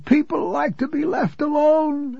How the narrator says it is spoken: I whined simple-mindedly

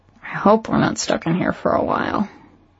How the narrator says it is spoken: I muttered

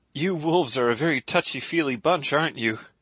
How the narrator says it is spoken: He asked with a laugh

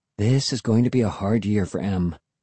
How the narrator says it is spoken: she muttered

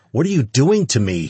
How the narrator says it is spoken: he cried out

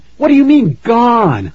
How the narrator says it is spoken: I cried

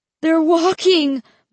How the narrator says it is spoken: Mark cried

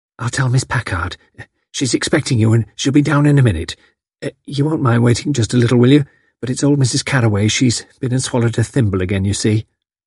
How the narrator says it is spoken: saying rather breathlessly

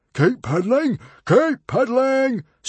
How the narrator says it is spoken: screamed Norbert the Nutjob

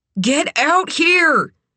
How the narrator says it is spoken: hollered

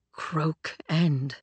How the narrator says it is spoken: Hero breathed

